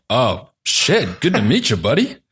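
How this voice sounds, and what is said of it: Impression of a coworker's reaction. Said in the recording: “that's your impression of me.”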